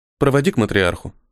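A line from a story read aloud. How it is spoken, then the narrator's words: Quiet. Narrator (Russian): тихо сказала Мия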